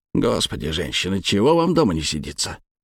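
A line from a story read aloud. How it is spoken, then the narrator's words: Grumbling. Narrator (Russian): буркнул Макар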